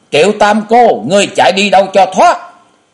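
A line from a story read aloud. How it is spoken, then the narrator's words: Old woman's loud roar. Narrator (Vietnamese): Cổ Mục Tiên Bà gầm lớn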